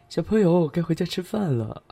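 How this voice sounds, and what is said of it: Sarcastic, mocking tone. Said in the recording (Chinese): “用一种阴阳怪气的声音说”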